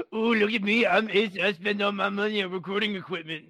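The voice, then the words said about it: Mocking imitation of another person. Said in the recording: “my impression of me as a dumb one”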